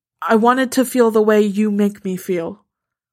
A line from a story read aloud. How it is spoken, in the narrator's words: her voice is steady when she says